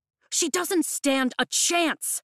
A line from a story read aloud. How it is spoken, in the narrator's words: Mira shouts